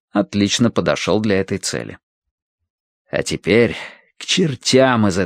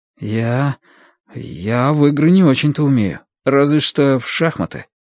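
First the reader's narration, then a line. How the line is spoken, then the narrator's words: Forced, reluctant. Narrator (Russian): выдавил из себя Мэтью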